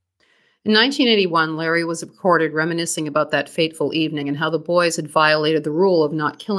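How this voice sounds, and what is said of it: Usual voice. Nothing is said of it.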